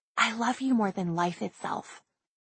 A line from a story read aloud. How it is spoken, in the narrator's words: he would softly whisper